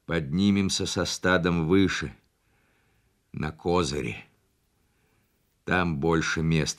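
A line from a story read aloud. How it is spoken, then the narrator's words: Plain. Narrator (Russian): сказал Бача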